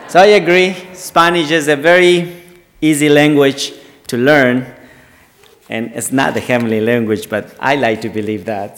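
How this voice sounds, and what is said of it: Ecuadorian Spanish-accented English. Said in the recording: “if some of you might wonder my accent, I'm not from the South, not from South Carolina, but I'm from the South, South America. I'm from Ecuador.”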